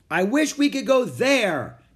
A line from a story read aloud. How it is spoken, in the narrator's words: Annie shouted